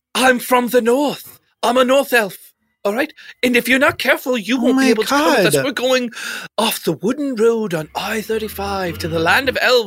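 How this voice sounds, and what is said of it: Put-on accent, not his normal speech. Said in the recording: “You have to drop the accent ... You're from Minnesota. You don't talk like this.”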